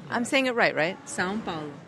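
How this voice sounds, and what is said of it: Foreign accent in Portuguese. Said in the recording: “I can tell your accent ... Oh, I can tell, yes.”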